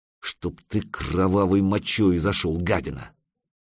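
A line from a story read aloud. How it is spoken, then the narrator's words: Hissed through teeth. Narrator (Russian): процедил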